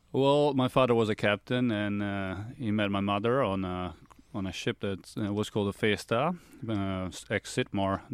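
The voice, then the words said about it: Mixed Italian-Australian accent. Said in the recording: “that accent, it doesn't sound like a ... I'm half Australian, so I've been told that I've got a very interesting accent”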